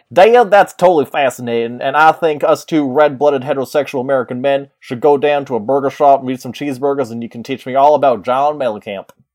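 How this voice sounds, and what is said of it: Put-on Texas-sounding accent. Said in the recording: “I like how I said it wasn't a Texas accent, but that's all I can physically do now.”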